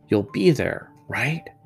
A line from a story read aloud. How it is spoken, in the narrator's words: whispered